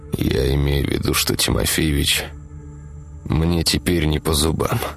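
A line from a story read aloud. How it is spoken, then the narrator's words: Through gritted teeth. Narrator (Russian): процедил Игорь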